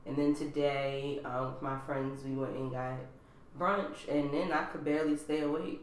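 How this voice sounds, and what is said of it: Slightly raspy voice. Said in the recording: “as y'all can hear, my voice is like a little raspy today”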